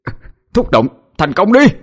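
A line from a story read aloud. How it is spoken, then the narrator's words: Straining shout. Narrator (Vietnamese): Cậu cố sức mà hét lên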